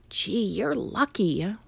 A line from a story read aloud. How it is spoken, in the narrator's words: whispered the boy